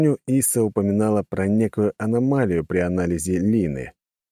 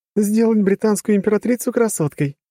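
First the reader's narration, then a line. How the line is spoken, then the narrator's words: Chuckling woman. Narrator (Russian): хохотнула огневолосая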